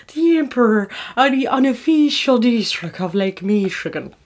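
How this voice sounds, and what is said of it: Put-on Irish accent slipping into RP. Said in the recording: “Can you say it in the accent? ... I have to do an Irish accent. And I've just given in to the moments where it goes full RP.”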